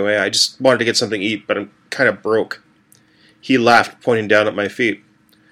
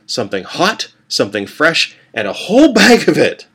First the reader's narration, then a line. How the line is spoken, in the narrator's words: I said, laughing